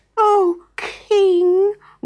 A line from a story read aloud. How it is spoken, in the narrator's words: wailed the ostriches, backing away